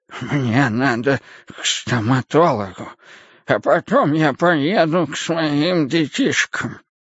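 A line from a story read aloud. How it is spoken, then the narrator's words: Toothless, breathy mumbling man. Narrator (Russian): Мужчина, шамкая беззубым ртом, с придыханием повторял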